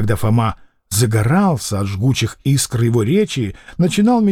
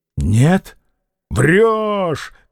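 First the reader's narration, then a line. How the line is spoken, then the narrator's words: Agitated shouting. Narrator (Russian): кричал Фома, возбужденный противоречием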